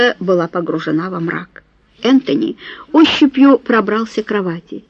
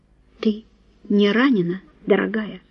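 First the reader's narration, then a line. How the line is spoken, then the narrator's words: Quiet question. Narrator (Russian): тихо спросил он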